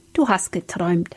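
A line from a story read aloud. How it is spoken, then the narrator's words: Gentle. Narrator (German): sagte sanft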